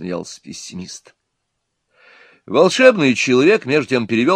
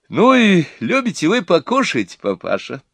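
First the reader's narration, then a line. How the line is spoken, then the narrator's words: Cheerful, spoken into ear. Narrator (Russian): весело сказала мать невесты на ухо деду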